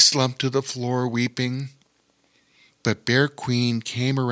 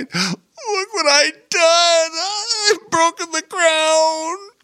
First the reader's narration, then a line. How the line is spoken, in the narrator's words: in horror, tears forming in his eyes as he cried